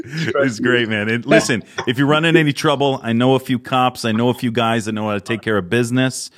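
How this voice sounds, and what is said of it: East Coast American accent. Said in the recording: “I'm hearing your East Coast accent come out there.”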